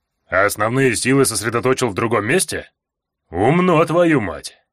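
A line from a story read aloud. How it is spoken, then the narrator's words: Smirking reply. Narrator (Russian): хмыкнул Эрни в ответ на мое предположение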